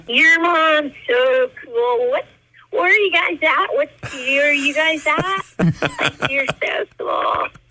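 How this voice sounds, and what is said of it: Valley Girl voice. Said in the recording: “Valley Girl lingo”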